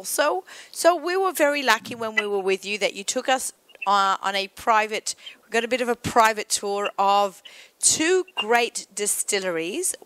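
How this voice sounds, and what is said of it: Non-rhotic accent, drops the R. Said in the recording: “I know it sounds really funny with my accent ... Peerless with an R. I say Peerless because that's my accent, but it actually has an R in there”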